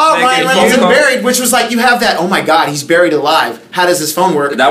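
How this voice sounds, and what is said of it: Usual voice. Nothing is said of it.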